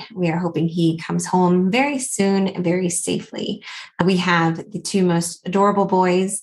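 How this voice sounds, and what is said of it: Slight Southern US accent. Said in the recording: “I'm originally from Atlanta, Georgia. So if you hear a little bit of that accent coming through”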